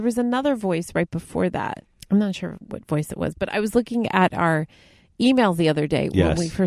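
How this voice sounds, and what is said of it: Usual voice. Nothing is said of it.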